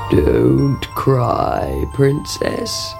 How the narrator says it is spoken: croaked a voice

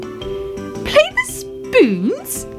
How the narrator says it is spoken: cried Fuzzy Ted

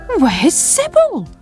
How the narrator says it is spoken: cried Sam

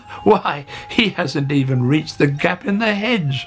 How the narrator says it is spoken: laughed Hare

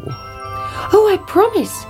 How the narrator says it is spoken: cried the princess

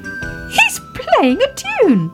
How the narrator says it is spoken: cried Baby Ted

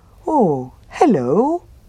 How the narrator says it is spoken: said the bear happily

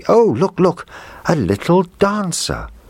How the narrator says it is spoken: the little girl cried out happily

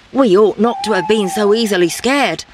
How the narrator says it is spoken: said the leader

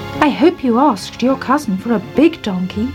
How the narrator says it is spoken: said

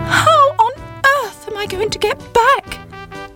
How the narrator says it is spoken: cried Sybil

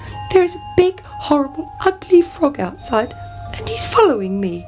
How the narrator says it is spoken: cried the princess

